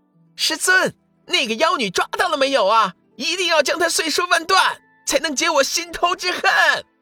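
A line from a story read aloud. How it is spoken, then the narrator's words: Small child-like loud shout. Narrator (Chinese): 粉嘟嘟的小人儿，大声喊道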